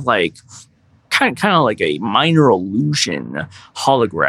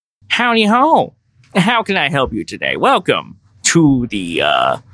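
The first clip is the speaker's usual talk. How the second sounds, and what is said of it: Silly cheerful character voice. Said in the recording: “a very silly voice.”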